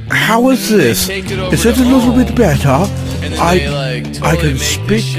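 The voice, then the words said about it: Put-on posh accent. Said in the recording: “I have got a little bit of every accent. I can speak. If you like, I can speak posh”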